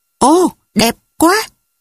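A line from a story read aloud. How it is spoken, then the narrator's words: Excited exclamation. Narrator (Vietnamese): hào hứng thốt lên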